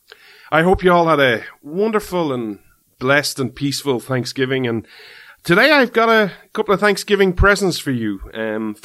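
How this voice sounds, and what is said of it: Irish accent. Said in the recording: “This Irish man stands with America ... the show where you come for the accent”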